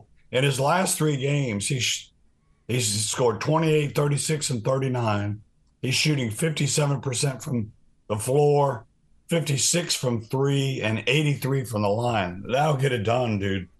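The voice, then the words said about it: Strained, worn-out voice. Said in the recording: “as you can tell by my voice, if if I'm not dead ... have to put you on voice rest for a couple days ... I definitely have to go on voice rest”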